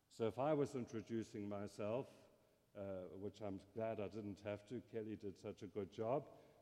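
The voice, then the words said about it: South African English accent. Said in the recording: “my accent, I grew up in South Africa”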